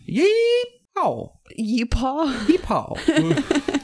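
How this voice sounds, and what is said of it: Put-on Texan accent. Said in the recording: “they have the most fun accent ... They'll never suspect it, that you're not from Texas in Texas”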